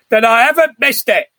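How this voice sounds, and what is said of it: Imitates another person's voice. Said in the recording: “my Alistair Sim impression”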